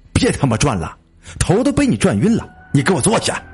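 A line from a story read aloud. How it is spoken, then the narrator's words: Angry roar. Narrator (Chinese): 赵亮一吼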